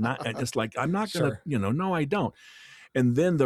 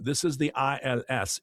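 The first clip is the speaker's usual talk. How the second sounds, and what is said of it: Imitated accent of a voicemail caller. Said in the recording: “I also got the voicemail with the accent.”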